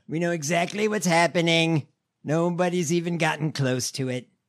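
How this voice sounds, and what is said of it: Imitates another person's voice. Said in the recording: “these Trump impersonations ... shitty Trump impersonation”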